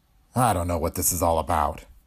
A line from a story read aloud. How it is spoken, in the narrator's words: Green muttered